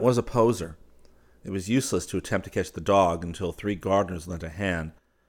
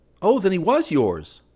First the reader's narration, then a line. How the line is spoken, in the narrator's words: cried Hastings